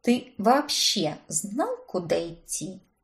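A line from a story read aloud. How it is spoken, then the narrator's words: Quiet question. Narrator (Russian): тихо уточнила я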